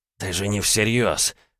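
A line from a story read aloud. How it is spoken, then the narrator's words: Hissing. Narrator (Russian): прошипел Прилов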